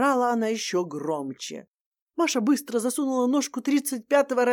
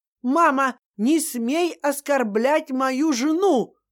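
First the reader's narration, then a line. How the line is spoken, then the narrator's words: Shouting. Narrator (Russian): крикнул Ваня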